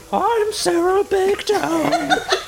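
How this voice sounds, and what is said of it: Bad cartoon female voice impression. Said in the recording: “It's like a bad Marge impression.”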